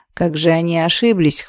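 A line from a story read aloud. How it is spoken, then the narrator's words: Snorting. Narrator (Russian): хмыкнул Лорачестер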